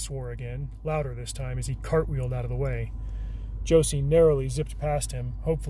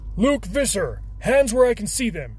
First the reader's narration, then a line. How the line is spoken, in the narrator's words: snapped